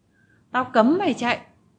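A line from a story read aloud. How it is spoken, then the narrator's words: Shouted commander. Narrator (Vietnamese): Ông chỉ huy quát vào mặt Kiến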